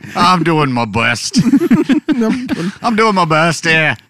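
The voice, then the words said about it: Attempted Scottish accent, drifting Irish. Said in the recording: “In a Scottish accent ... feel a little more Irish ... You became Mrs. Doubtfire”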